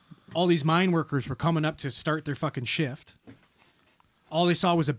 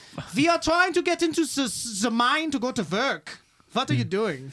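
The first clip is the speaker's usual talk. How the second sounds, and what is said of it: Put-on Irish or German accent. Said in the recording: “you got to do it in an Irish or a German accent”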